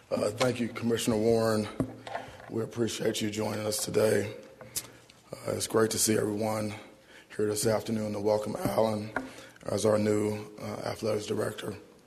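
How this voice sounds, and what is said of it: Strained, worn voice. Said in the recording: “Excuse my voice, we had practice this morning. ... I only raise my voice in enthusiasm.”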